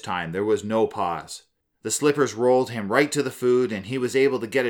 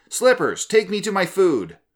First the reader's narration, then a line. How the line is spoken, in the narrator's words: he hollered out